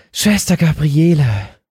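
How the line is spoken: Sudden squeaky gasp. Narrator (German): keuchte Lotte plötzlich mit piepsender Stimme

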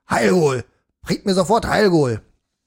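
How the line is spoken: Roaring. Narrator (German): brüllte

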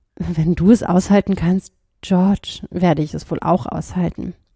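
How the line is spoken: Quiet. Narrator (German): sagte sie leise

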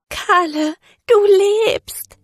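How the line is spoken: Sobbing woman. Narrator (German): schluchzte sie

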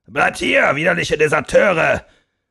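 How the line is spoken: Bellowing after them. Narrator (German): brüllte der Oberst hinter ihnen her

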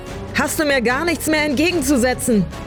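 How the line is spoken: Frantic scream into wind. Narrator (German): schrie sie mit wild durchdrehenden Augen in den Wind

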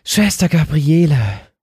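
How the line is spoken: Sudden squeaky gasp. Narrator (German): keuchte Lotte plötzlich mit piepsender Stimme

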